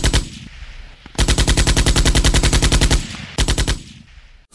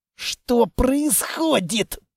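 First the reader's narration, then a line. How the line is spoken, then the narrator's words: Hoarse croak. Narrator (Russian): прохрипел я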